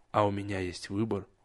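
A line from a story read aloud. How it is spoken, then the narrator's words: Gloomy. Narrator (Russian): мрачно откликнулся Насм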